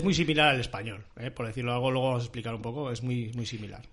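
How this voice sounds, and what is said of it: Usual voice. Nothing is said of it.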